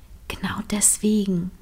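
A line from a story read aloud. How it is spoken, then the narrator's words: Quiet answer. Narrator (German): antwortete Line leise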